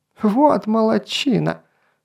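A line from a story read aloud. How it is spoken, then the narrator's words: High-pitched squeal. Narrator (Russian): завизжал своим писклявым голосом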